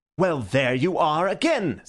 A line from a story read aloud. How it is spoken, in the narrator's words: said Syme indignantly